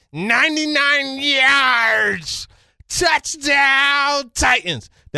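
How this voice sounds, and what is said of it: Poor impression of sportscaster Mike Keefe. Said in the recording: “I could hear Mike Keefe ... That was terrible as far as my impersonation is concerned”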